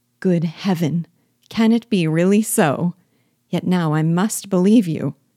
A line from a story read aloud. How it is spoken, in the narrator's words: cried Jane